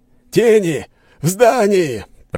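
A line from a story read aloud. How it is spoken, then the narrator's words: Shout. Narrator (Russian): прокричал кто-то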